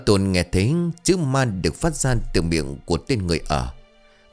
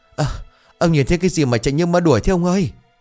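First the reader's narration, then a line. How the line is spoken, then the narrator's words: Breathless panting. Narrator (Vietnamese): Một thằng người ở thở hổn hển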